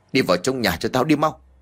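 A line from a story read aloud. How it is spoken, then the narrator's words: Shout. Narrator (Vietnamese): ông quát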